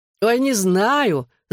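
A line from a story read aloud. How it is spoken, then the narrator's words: Laughing. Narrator (Russian): засмеялся Гипси, отвечая на вопрос Джоуи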